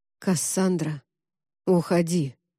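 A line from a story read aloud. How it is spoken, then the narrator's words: Muffled, frightening. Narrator (Russian): как-то глухо и страшно сказал Август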